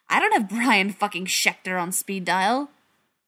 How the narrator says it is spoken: Mike snapped

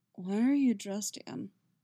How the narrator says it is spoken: Geralt asks, his voice thick with sleep

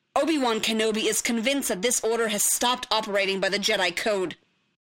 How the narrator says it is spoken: Voss snapped, his voice rising

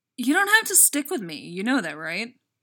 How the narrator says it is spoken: She blurts, apropos of nothing

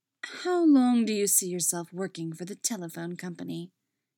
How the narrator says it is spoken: Miriam asked, her tone still cold

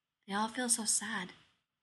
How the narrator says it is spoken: the girl says in a soft voice

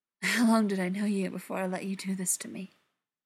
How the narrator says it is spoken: John replied, his voice a little strained

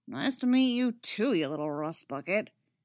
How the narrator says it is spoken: Kanan grumbles

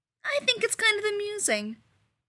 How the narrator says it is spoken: Rodney said cheerfully

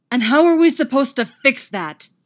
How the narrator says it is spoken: Derek roars right in his face

